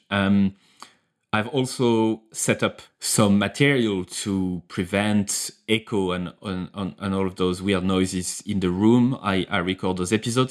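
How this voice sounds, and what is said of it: French accent. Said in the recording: “my accent, my French accent”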